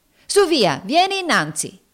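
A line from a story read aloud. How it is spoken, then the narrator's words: Shouting. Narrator (Italian): gridava essa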